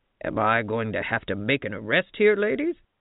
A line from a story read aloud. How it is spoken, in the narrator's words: asked in his gruffest voice